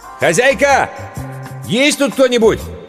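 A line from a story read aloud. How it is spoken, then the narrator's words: Shouting. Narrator (Russian): прокричал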